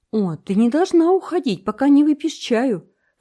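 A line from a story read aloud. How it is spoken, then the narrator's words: Horrified exclamation. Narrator (Russian): воскликнула Энн в ужасе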